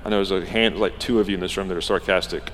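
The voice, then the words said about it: Sarcastic tone. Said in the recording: “That was sarcasm”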